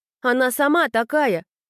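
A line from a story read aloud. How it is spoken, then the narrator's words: Shouted. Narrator (Russian): крикнула черноволосая Кика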